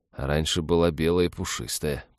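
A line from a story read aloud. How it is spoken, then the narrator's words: Mumbled. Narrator (Russian): пробормотал Олег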